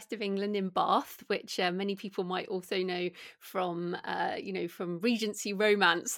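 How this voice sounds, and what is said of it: British accent. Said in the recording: “as people can probably hear from my accent, I'm British”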